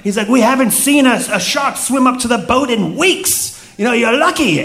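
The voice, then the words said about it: Pirate voice in place of South African. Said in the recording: “I can't do a South African accent. So, South Africa. So you're going to get pirate.”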